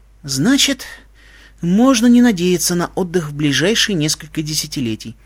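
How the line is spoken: Sighing. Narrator (Russian): вздохнула Алевтина

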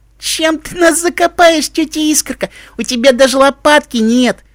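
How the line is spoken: Moaning. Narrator (Russian): простонала Крошка

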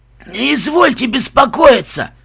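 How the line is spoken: Wheezing, burned lungs. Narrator (Russian): просипел алхимик с сожженными легкими

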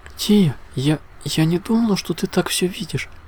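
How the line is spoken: Uncertain mumbling princess. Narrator (Russian): неуверенно пробормотала темная принцесса

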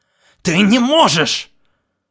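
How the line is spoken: Shouting. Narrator (Russian): заорал он

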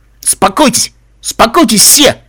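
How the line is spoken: Loud. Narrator (Russian): громко сказал Каламити

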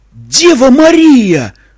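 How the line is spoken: Shout. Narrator (Russian): закричал водитель

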